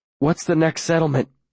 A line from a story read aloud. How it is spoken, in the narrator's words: I gasp after a good half hour's run walking